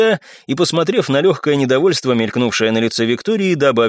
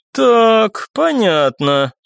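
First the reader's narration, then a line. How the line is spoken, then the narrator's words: Drawling. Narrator (Russian): протянула Оксана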